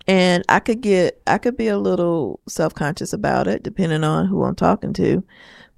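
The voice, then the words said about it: Southern accent, slow speech. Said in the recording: “I have a Southern accent ... I talk a little slower”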